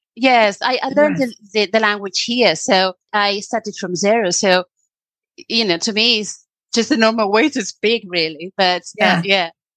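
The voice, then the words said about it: British-sounding English, Spanish speaker. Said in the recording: “she's from the UK ... now I can hear both ... a foreigner spoke English with such a British accent”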